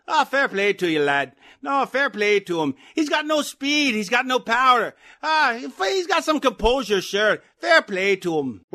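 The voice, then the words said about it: Irish accent impression. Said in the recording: “my best impression ... that's either Conor McGregor or the Lucky Charms guy”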